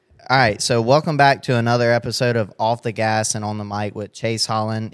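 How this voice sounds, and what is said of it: Smooth radio announcer voice. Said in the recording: “you have a really nice radio voice... I can hear it loud and clear. Very good... People pay big money to have voiceover type stuff from people like your voice.”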